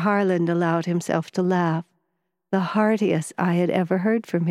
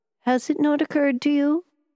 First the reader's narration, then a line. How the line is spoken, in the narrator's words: faltered Mr